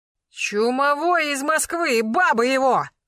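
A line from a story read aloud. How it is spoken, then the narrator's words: Shout. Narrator (Russian): крикнул Карпов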